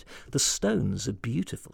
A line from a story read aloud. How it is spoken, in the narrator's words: she said quietly